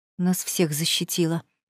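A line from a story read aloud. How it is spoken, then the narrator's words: Muttered. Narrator (Russian): пробормотала я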